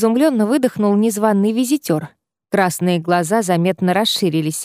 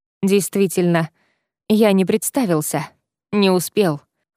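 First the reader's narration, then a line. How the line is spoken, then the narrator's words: Snorting chuckle, vampire. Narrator (Russian): хмыкнул вампир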